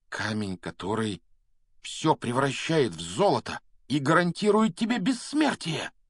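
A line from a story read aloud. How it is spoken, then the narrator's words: Exclaiming. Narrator (Russian): воскликнул Гарри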